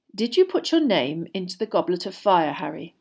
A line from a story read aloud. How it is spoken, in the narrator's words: Dumbledore asked calmly